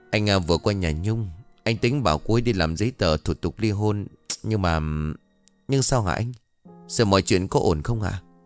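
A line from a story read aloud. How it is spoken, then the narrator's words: Sighing account. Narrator (Vietnamese): Dần thở dài tường thuật lại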